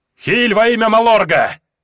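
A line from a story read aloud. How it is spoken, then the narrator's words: Roared. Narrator (Russian): проревел Гринву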